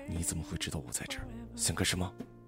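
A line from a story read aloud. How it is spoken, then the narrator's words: Startled, through gritted teeth. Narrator (Chinese): 薛振玉吓了一跳，嘴里的话却咬牙切齿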